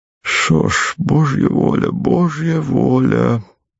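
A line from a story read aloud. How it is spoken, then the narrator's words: Dull, resigned voice. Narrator (Russian): потухшим покорным голосом сказал он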